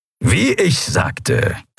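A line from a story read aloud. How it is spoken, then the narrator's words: Satisfied grumble. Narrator (German): brummte der Skria hörbar zufrieden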